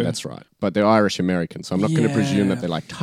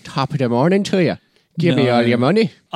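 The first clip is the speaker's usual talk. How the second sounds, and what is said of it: Mock Irish accent. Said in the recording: “Irish”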